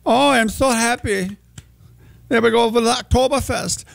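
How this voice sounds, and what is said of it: Bad put-on German accent. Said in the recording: “I have to put on my accent... that is a terrible accent... we can still do German”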